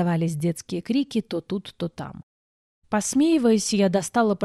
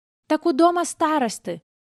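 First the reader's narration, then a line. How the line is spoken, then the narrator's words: Bold little boy shouting. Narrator (Russian): выкрикнул самый смелый, вихрастый, рыжеволосый мальчонка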